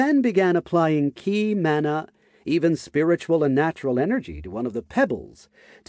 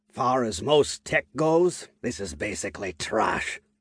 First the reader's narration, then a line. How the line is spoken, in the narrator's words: he said in a harsh tone